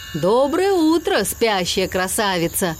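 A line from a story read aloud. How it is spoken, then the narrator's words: Booming truck voice. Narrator (Russian): прогудел МакКуину желтый тягач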